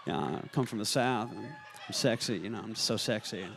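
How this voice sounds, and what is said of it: Matthew McConaughey Southern accent impression. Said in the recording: “Matt McConaughey, yeah. Yeah. I just got this accent.”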